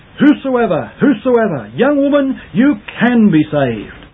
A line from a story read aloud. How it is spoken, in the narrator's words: Spurgeon cried from the pulpit